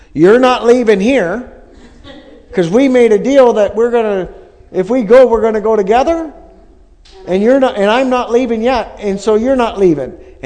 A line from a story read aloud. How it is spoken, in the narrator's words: my mom yelling